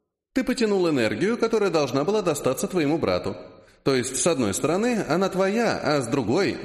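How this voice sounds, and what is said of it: Usual voice. Nothing is said of it.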